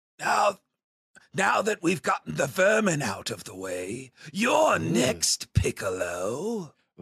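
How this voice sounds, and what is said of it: Strained monstrous creature voice. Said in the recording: “We get the voice of the creature for the first time. I'm going to ruin my voice doing this impression.”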